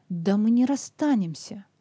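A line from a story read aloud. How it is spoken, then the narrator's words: Forced confident exclamation. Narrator (Russian): воскликнул Сэнди, стараясь придать голосу как можно больше уверенности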